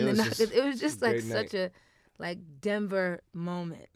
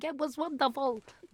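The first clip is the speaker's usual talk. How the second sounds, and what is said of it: Thick New York accent, old person. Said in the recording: “Whenever I do voices, they always have like thick New York accent... That old Boston guy.”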